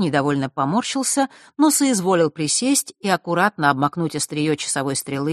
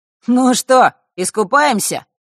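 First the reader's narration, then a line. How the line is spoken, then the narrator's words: Dry grunt. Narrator (Russian): хмыкнул Маар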